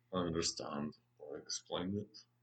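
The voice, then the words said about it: Werner Herzog impression, German accent. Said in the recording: “That was almost a Werner Herzog. ... that's what I was going for. ... Werner Herzog has a very unique voice, even for a German.”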